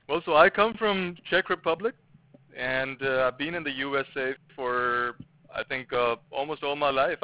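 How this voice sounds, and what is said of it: Foreign accent. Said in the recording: “I can tell you have an accent of some sort”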